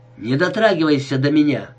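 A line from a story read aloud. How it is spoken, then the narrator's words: Sharp. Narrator (Russian): резко сказала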